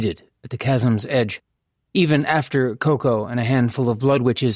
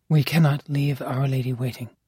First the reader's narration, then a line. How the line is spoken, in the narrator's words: she'd murmured